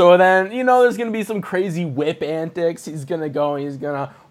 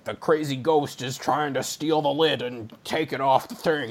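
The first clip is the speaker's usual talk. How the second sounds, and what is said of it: Imitates another person's voice. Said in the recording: “my Harrison Ford impression”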